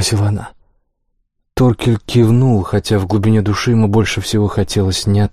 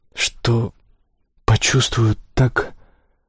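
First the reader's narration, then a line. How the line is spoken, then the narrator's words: Whispered after pause. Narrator (Russian): Она на секунду замолчала, а потом шепотом добавила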